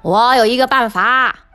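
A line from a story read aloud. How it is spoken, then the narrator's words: Loud shout. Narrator (Chinese): 鸭子大叫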